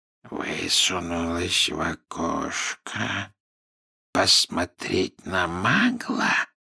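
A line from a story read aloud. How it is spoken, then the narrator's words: Quiet question. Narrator (Russian): тихо переспросил Мракс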